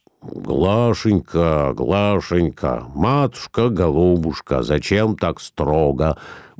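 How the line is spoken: Frightened slurred mumble. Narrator (Russian): бормотал коснеющим языком Николай Иванович, испугавшийся, рассвирепевший супруги

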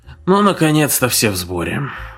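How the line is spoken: Tired. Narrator (Russian): устало проговорил Дженкинс

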